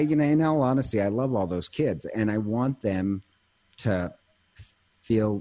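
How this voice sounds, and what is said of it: Usual voice. Nothing is said of it.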